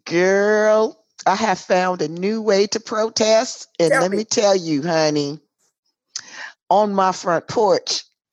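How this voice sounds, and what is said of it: Hoarse voice. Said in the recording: “the reason I am so hoarse is because I have been joining the protesters from my front porch ... protesting, hollering, screaming”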